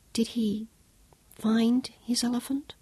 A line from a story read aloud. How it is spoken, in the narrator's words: She asked softly